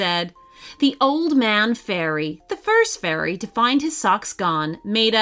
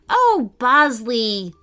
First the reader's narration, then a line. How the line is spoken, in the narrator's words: Lila sighed